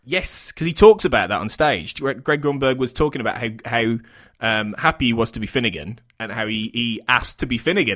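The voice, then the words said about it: West Midlands English accent. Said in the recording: “he had a similar accent to me. He was definitely from the West Midlands in the UK”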